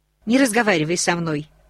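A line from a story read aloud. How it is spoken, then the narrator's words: Sharp interruption. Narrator (Russian): резко оборвала ее Рони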